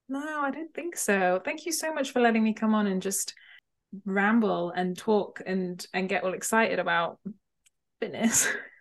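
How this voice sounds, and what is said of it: Speaks with a noticeable accent. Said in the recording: “you have a lovely voice and a lovely accent.”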